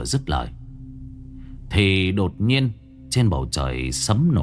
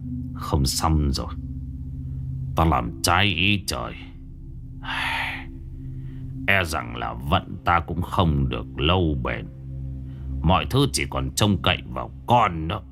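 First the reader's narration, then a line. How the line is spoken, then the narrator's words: Sighing old man. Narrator (Vietnamese): Ông Mẫn ... thở dài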